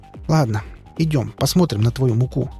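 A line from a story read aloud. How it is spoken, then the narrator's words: Sighing. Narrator (Russian): вздохнула Лариса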